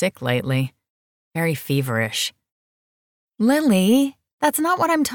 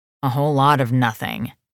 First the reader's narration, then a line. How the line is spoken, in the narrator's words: she growled